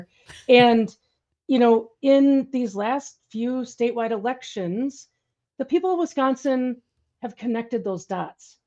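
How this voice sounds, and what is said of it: Wisconsin accent. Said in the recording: “I'm from Wisconsin. You probably tell by the accent that I'm from here.”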